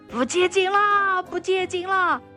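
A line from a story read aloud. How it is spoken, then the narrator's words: Loud shouting. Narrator (Chinese): 大声地喊叫说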